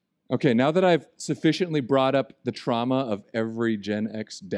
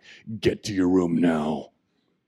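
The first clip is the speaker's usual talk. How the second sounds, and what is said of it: Stern authoritative dad voice. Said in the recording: “the bat dad voice ... the authority, the fear”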